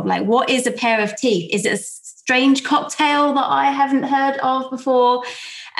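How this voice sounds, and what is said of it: South London accent. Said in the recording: “my South London accent”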